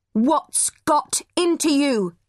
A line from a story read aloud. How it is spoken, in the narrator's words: shouted